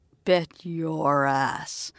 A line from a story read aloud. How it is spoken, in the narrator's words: Karis growled, voice dipping lower than she probably wanted it to